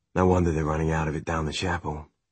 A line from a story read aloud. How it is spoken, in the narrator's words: Will muttered